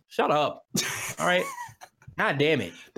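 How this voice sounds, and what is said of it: Mock impression of annoyed chat. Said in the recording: “That was a good impersonation of Twitch chat.”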